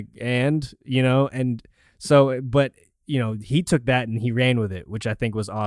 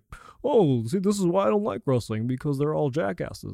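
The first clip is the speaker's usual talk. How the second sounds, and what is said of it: Mocking generic white guy voice. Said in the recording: “that's an incredible impersonation ... my impersonation of like Twitter people who don't like wrestling. ... Generic white guy.”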